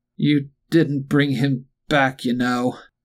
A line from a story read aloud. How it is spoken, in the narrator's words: slurred viciously